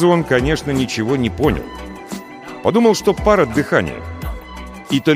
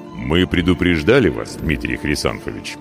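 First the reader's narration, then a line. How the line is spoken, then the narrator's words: Deep, low rumble. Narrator (Russian): густо и тихо прогудел смуглый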